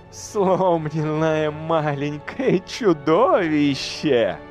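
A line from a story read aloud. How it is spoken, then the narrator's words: Laughing. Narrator (Russian): рассмеялась Леадрес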